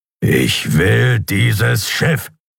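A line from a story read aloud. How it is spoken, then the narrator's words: Growl. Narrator (German): knurrte er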